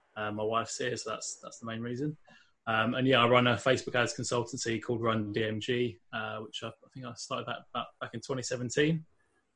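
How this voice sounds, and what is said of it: London English accent. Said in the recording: “You can probably tell by my accent maybe that I'm not from Northern Ireland originally. I'm actually from London in England”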